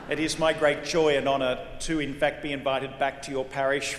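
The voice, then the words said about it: Australian accent. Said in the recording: “As you can already tell from this accent, I ain't from around these parts. ... I'm a Jesuit from Sydney, Australia”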